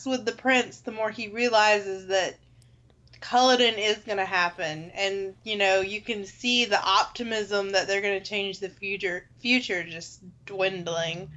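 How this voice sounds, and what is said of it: Country accent. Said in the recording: “I have a country accent”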